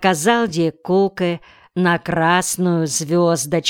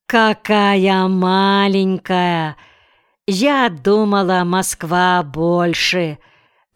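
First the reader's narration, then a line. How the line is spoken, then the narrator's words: Disappointed drawl. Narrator (Russian): разочарованно протянула Пеп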